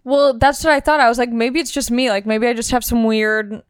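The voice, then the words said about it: Monotone voice, slight southern accent. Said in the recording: “I never knew I was monotone. I never knew I had, like, a weird voice. I never knew I had a southern accent”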